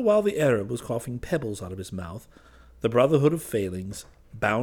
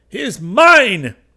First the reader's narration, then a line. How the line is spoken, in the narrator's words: shouted the Arab as soon as he could speak